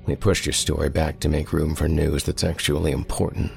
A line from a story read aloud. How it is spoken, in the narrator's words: I said